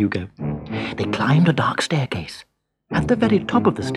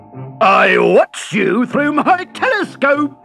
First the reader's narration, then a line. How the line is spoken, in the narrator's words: he boomed